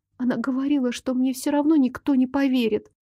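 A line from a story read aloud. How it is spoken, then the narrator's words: Continued distressed whispering. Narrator (Russian): продолжила шептать несчастная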